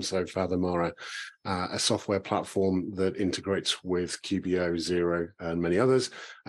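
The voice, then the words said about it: British accent. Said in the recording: “You can tell from the accent I'm from the UK.”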